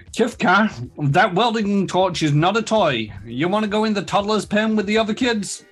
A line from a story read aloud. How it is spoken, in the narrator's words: She snorts dismissively before continuing